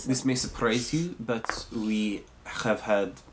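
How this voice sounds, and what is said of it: Slightly French put-on accent. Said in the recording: “I'm going slightly French for some reason... I don't know what this accent is.”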